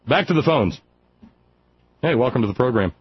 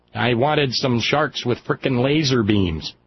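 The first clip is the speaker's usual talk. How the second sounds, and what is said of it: Dr. Evil impression. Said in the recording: “Dr. Evil's accent sounds a lot like Sarah Palin”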